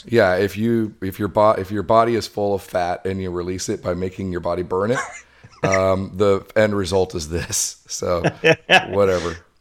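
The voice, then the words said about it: Rough, hoarse voice. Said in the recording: “you sound a little rough, man... I got a little cold earlier this week, and the end result of it is I'm losing my voice”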